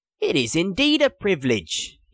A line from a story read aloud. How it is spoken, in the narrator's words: purred